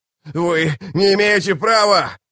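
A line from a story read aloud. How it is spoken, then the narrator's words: Yelling. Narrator (Russian): завопил Рад Феннер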